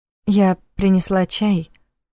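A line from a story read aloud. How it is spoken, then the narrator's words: Timid. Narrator (Russian): робко сказала она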